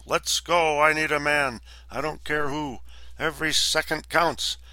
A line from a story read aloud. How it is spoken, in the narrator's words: Wilson bellow